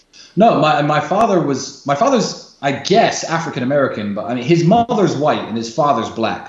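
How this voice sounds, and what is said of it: Mixed South African, Australian, Irish, English accent. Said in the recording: “your accent? You know, a little South African, a little Australian, a little Irish, a little English ... my accent is very mixed up”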